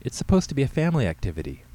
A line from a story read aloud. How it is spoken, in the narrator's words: Carrie pleaded